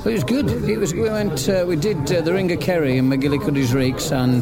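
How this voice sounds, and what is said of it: English Midlands accent. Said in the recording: “I gather from your accent you're Midlands guys”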